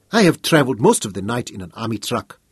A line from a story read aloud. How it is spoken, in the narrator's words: she said